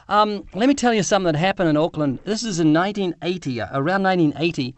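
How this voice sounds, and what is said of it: Slight New Zealand accent. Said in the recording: “I'm from New Zealand. Can you pick a slight accent? ... New Zealand, like English accent.”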